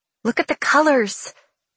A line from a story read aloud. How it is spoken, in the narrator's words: she murmurs